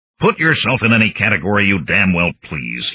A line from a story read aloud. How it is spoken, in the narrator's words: grumbled